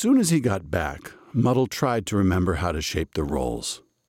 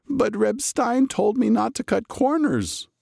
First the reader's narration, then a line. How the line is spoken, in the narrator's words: Muddle moaned